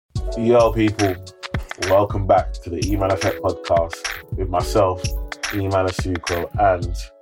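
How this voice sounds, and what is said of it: Hoarse, worn-out voice. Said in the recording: “I apologize if my voice sounds different today, but yesterday we were partying hard ... your voice is gone. ... My voice is gone.”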